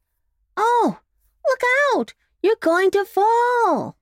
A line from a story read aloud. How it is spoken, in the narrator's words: cried the sawdust doll